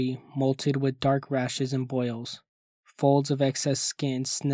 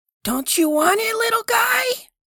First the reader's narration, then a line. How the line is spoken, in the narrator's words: I screamed and didn't stop screaming